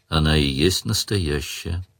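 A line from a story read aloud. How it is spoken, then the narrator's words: Tired. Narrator (Russian): устало сказал Сварог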